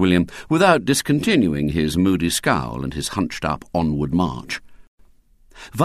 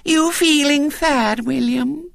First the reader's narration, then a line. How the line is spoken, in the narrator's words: said sweetly